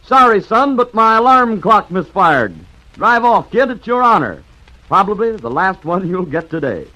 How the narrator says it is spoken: grinning cheerfully, said to the Prince of Wales

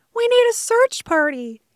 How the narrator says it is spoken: he called out

